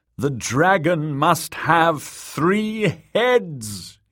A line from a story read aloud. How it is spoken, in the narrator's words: he wailed